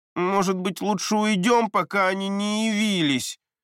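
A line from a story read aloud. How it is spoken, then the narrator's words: Pleading. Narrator (Russian): взмолился Леви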